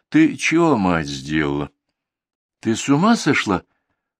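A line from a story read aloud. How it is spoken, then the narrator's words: Confused smiling question. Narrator (Russian): улыбнулся растерянно и спросил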